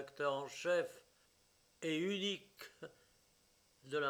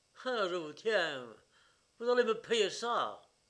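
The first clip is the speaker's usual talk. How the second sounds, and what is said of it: Angry shouting, strong southern French accent. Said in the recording (French): “une voix rageuse hurlait avec un fort accent méridional”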